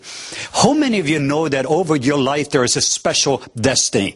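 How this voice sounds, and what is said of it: Norwegian-accented English. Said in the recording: “I have an accent, I am not from Alabama ... I am from the southwest coast of Norway.”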